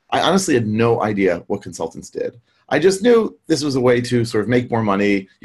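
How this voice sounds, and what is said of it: American English accent. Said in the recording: “as you can hear from my accent, I grew up in the US”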